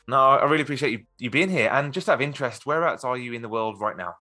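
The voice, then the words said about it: British accent. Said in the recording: “I take it by your accent that you are not ... I'm over here in the UK”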